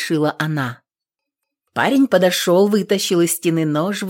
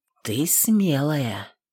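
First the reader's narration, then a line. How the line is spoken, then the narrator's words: Quiet speech. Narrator (Russian): сказал тихо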